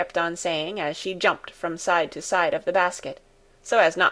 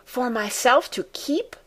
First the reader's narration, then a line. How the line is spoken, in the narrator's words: said Heidi excitedly, who could hardly believe such happiness was to be hers